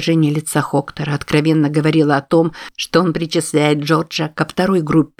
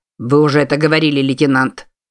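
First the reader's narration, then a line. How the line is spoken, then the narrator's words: Icy tone. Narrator (Russian): сказал капитан ледяным тоном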